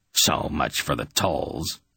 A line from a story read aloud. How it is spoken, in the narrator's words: Beldon grunted with satisfaction